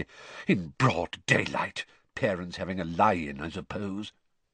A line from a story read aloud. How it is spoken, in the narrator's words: he muttered distractedly